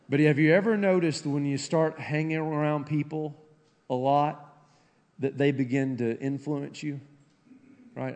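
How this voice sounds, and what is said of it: Rural hillbilly accent. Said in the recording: “still sound like a hillbilly to me”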